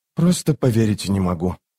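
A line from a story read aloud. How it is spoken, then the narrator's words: Muttered. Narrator (Russian): пробормотал юноша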